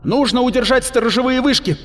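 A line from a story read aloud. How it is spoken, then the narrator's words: Shouted command. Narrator (Russian): крикнула Адеола уцелевшим солдатам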